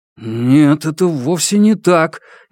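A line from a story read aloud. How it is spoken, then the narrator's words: Uncertain reply. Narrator (Russian): неуверенно отвечает Мацуда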